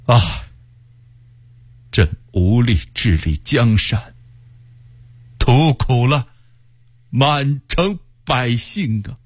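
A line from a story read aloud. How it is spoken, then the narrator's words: Sad sigh. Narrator (Chinese): 不禁心中心酸，叹口气说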